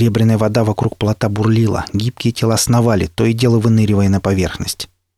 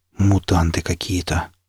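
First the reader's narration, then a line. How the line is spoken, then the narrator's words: Stunned mutter. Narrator (Russian): ошарашенно пробормотал я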